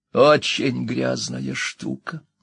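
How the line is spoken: Wheeze. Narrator (Russian): прохрипел он

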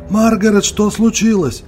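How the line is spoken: Shouting. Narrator (Russian): закричал мистер Торби

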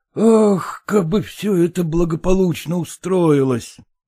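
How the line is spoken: Sighed. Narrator (Russian): вздохнул Селезенкин

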